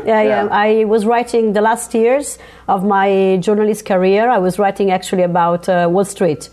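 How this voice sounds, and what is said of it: Italian accent. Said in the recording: “you're from Italy. People will get to hear the accent”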